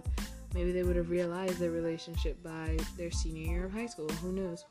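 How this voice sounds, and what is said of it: Dry, tired-sounding voice. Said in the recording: “I'm sorry about how dry my voice is right now. Like I said, I'm tired.”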